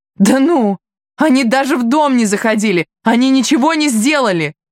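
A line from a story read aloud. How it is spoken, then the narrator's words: Shouting again. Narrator (Russian): опять закричала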